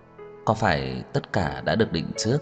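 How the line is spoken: Soft wistful smile. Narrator (Vietnamese): Trang Hạo Nhiên khẽ mỉm cười

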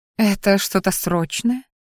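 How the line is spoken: Purr. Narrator (Russian): мурлыкнула она

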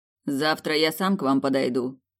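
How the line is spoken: Cold. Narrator (Russian): холодно произнес Александр

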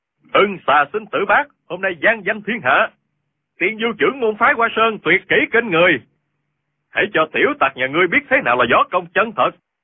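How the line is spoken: Crowd cheering loudly. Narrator (Vietnamese): môn hạ phái Hoa Sơn reo hò gian dội

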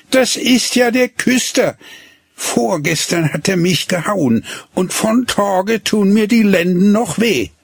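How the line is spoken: Called out. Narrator (German): rief

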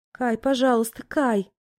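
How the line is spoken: Moaning, desperate pleading. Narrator (Russian): Я стонала, что-то бормотала, требовала и готова была умолять

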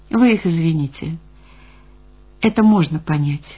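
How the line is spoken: Quiet. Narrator (Russian): тихо произнес Алексей Ильич

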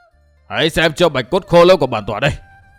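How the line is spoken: Shouted. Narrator (Vietnamese): Đầu Lâu Bảo chủ quát

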